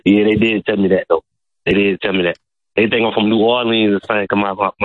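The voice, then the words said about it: Thick country accent, hard to understand. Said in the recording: “It sounds like he's speaking with a foreign accent ... I find you barely understandable ... it's country, man”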